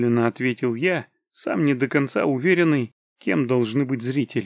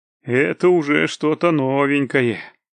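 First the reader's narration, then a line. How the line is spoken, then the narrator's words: Amused snort. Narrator (Russian): хмыкнул кузнец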